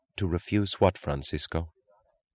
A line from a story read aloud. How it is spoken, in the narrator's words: She asked evenly